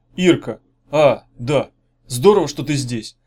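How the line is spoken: Hoarse, uncertain voice. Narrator (Russian): сказал Меф, недоверчиво прислушиваясь к своему охрипшему голосу

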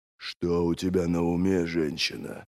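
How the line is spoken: Growled. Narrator (Russian): прорычал Горбатый

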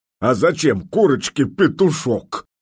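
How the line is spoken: Deep voice, then giggling. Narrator (Russian): пробасил и захихикал

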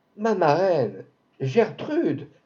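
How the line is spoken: Exclamation. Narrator (French): s'écria le peintre

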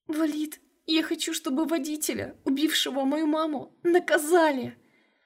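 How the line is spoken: Sobbing plea. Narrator (Russian): Рыдая навзрыд, попросила Карина

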